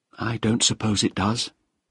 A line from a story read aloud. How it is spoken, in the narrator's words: said quietly